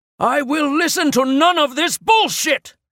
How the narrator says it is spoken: he roared

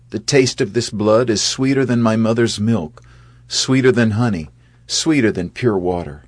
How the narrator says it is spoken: he shouted

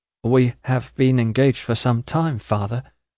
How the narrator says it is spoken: faltered Prince

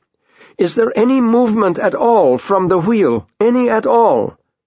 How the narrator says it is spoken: shouts

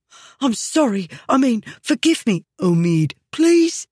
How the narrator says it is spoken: the boy said, wiping desperately now at his damp face

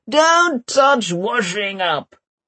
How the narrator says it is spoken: somebody yells

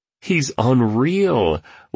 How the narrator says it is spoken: laughed the entrepreneur, clearly entertained

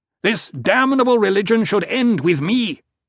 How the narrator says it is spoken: Leto shouted

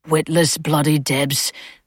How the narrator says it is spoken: the sergeant had muttered

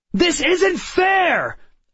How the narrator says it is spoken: I shouted

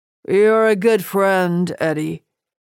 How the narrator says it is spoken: Mortimer slurred

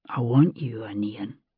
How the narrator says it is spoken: he said softly

